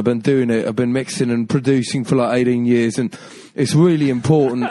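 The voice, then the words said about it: Put-on London accent. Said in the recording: “And then you've got like London.”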